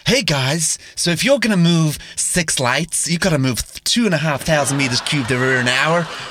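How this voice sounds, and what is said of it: Poor put-on American accent. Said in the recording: “Do we need Raph's accent? ... we've got loads of American subscribers, so that's a really shocking accent ... He's from Virginia.”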